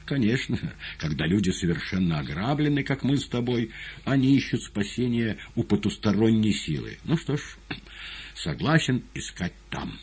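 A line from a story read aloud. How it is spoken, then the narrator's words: Reply, then laughing. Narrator (Russian): отозвался мастер и, засмеявшись, добавил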